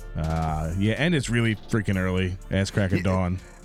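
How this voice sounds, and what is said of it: Worn-out, hoarse voice. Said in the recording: “My voice is still a little shot”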